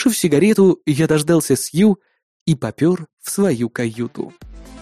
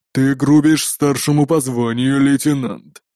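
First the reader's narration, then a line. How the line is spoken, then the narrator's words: Growled. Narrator (Russian): прорычал полковник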